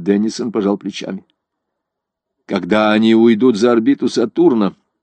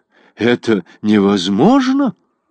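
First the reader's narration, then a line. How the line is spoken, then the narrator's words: Alarmed exclamation. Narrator (Russian): с тревогой воскликнул Годштейн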